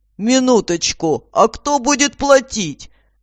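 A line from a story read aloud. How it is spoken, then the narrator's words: Menacing roar. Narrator (Russian): грозно проревел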